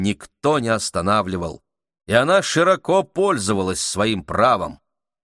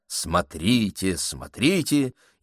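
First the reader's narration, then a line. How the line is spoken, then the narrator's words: Shouting. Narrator (Russian): Теперь миссис Адамс могла спокойно кричать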